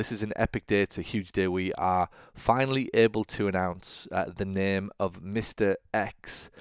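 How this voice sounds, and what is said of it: Excited voice. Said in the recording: “hear the excitement in my voice”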